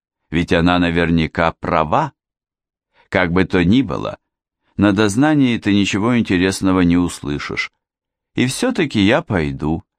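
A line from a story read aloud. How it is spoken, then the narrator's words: Calm proclamation. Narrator (Russian): спокойно провозгласила Вики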